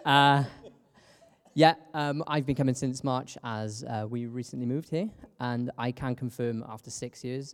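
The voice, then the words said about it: British accent. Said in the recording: “I'm the British one ... a British accent”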